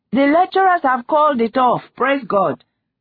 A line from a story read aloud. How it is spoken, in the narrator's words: Chitachi shouted from their flat